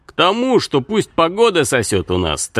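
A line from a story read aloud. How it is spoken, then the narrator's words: Triumphant announcement, then laughter. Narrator (Russian): торжеством объявил Аркан и захохотал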